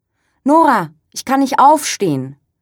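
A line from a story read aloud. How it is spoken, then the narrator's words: Helpless call. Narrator (German): ruft Brigitte mit hilfloser Stimme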